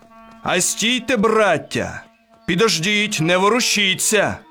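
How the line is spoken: Shouted. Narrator (Ukrainian): крикнув на козаків

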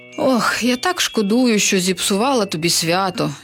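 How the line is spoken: Regretful sigh. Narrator (Ukrainian): зітхнула відьма

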